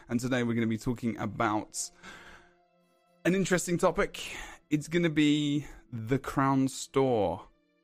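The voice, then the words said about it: Hoarse voice. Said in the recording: “My voice is a bit hoarse today.”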